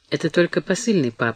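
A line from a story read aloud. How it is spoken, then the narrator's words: Quiet, hiding worry. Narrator (Russian): ответила тихо, стараясь не выдать голосом свое беспокойство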